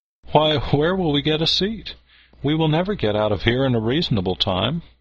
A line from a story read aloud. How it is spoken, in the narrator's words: She wondered greatly at the crowd, and exclaimed